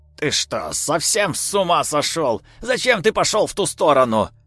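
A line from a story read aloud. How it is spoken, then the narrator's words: Shouting. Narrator (Russian): закричала она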